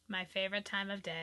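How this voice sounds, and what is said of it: Sarcastic tone. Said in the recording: “hear the sarcasm in my voice?”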